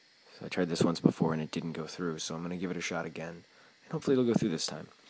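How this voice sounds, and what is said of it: Usual voice. Nothing is said of it.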